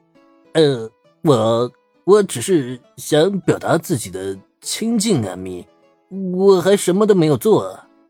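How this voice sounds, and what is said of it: Trembling, quiet pleading voice. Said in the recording (Chinese): “瑟瑟发抖的小声辩解”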